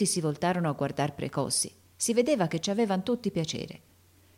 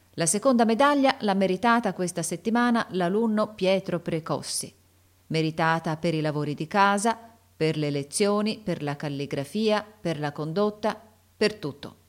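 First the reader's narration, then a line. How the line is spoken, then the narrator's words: Loud announcement. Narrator (Italian): Il sovrintendente disse a voce alta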